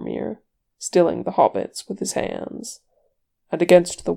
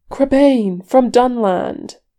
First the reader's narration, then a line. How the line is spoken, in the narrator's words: the elf cried